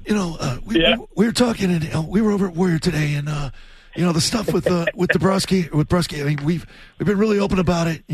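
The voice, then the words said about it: Imitates another person's voice. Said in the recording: “your Don Sweeney impersonation ... does a pretty good Don Sweeney”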